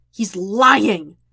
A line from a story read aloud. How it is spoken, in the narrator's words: Jet snarls